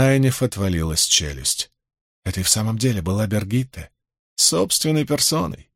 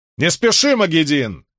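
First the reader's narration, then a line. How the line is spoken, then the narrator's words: Shout. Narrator (Russian): крикнула Бергитта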